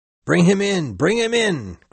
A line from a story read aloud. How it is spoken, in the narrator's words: cried Stubb